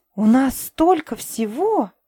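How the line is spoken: Awed breathless exclamation. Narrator (Russian): благоговение выдохнула Тайра

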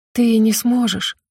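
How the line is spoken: Whisper. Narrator (Russian): прошептала я

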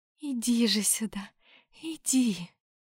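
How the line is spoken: Tender cooing. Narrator (Russian): Ласково проворковала Аурелиэль

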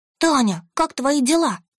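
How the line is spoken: Joyful little girl. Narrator (Russian): Радостно загласила малышка

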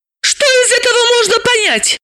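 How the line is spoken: Shouting. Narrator (Russian): закричала Далила

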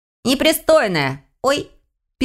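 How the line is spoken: Startled squeak, little elf. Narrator (Russian): пискнул эльфенок, пойманный за штаны проворным щупальцем каракатицы

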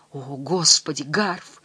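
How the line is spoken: Moaning. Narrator (Russian): стонал Дэн

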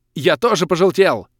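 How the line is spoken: Alarmed shout. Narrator (Russian): с тревогой крикнул Крей

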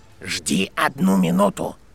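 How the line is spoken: Hoarse command. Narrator (Russian): приказал хриплый голос

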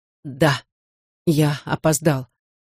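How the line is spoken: Choked, strained voice. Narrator (Russian): сдавленным голосом сказал Никита

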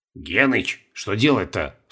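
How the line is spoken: Whisper. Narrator (Russian): шепнул Колобков

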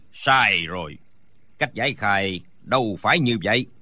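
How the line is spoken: Shout. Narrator (Vietnamese): Đinh Bất Tứ quát lên

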